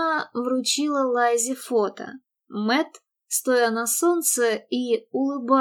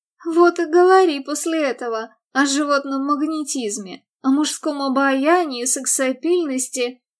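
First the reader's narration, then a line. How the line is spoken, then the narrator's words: Laughing. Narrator (Russian): Мередит, смеясь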